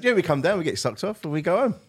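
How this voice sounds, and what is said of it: Imitated Irish accent. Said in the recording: “that's how they said it in their Irish accent”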